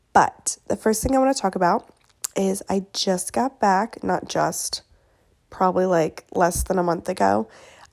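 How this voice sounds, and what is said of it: Sick, congested voice. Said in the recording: “I sound sick. I'm getting over a cold and like a sinus thing ... I apologize for my voice.”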